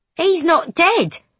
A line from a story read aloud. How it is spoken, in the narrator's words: a young boy exclaims